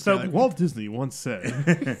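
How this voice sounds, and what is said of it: Grand announcer voice. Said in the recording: “the announcer voice”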